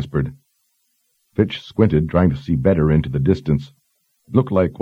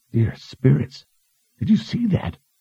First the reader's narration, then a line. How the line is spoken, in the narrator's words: Morley gasped